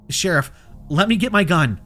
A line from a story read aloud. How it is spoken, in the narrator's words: I said as calmly as I could, unable to keep my voice from shaking with fear